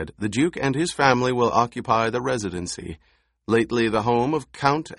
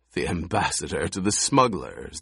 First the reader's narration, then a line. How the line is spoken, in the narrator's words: the Baron chuckled